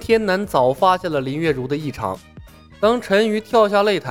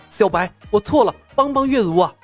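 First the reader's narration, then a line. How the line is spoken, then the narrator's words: Urgent shout. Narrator (Chinese): 陈宇脸色大变…急声喊道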